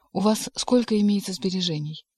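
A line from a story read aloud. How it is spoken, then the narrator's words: Sympathetic tone. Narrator (Russian): Вопрос был задан участливым тоном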